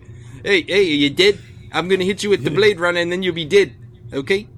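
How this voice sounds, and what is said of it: Put-on New Zealand accent. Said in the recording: “his accent is fucking hysterical ... I can't take any New Zealander like as an evil character. It's like as soon as you start talking, it's just too funny.”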